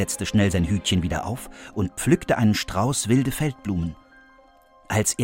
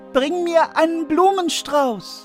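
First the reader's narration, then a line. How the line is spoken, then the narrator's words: Calling out. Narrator (German): rief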